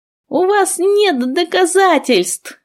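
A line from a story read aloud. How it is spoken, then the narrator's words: Shrill shriek. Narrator (Russian): взвизгнула Ада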